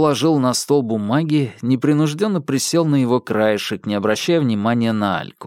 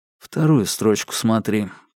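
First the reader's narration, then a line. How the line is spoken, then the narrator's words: Low-voiced advice. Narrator (Russian): посоветовал Макар вполголоса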